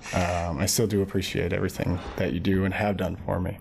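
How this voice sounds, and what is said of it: Choked-up, emotional, stuttering voice. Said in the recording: “getting a little choked up here and stuttering and whatnot”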